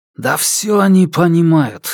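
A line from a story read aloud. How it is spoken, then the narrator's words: Hostile grumble. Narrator (Russian): неприязненно проворчал Валиев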